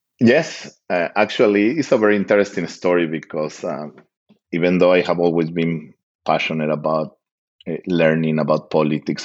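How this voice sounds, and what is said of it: Strong non-native accent. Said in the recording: “you can tell by the strong accent that I have”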